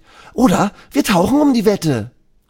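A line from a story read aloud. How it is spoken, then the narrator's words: Shouting. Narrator (German): Elisa schreit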